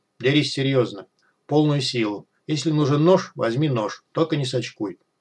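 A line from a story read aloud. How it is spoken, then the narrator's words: Unexpectedly firm, calm voice. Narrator (Russian): Неожиданно твердым и спокойным голосом предложил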